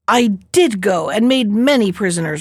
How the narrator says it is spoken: retorted the turtle angrily

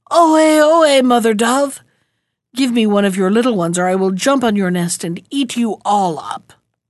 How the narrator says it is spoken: he cried out a second time

